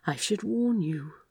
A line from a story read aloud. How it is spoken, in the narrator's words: Aziraphale murmured